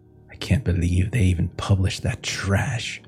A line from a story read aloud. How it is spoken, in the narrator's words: she muffles under her breath